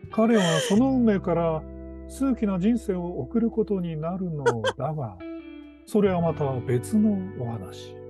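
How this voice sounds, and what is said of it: Imitates a TV drama narrator. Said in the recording (Japanese): “王様のレストランっていうあの…ドラマのね…最後のフレーズ…モノマネを1個入れてみました”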